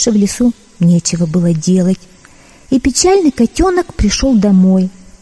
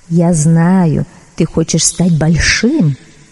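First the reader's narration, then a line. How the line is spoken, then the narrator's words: Plain. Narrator (Russian): сказала оно котенку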